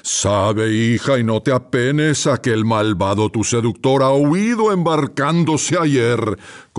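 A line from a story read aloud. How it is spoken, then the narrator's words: Father roaring. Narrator (Spanish): concluyó el padre entre rugidos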